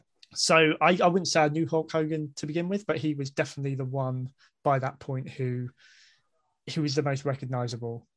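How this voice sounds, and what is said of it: British accent. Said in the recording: “judging, if I may prejudge you by your accent, I'm going to assume that you grew up in the UK”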